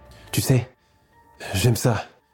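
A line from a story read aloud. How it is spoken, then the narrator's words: Sadistic whisper. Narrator (French): souffle-t-il sadique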